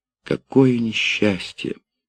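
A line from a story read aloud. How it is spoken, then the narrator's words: Exclaiming, then sobbing. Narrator (Russian): воскликнула она и зарыдала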